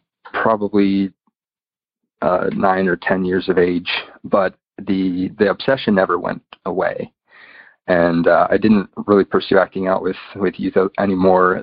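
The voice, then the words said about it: American English accent. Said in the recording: “I'm from the United States, if you can tell by my accent.”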